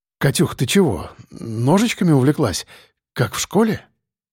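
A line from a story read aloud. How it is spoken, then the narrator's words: Joking mumble. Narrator (Russian): пробормотал, пытаясь обратить ситуацию в шутку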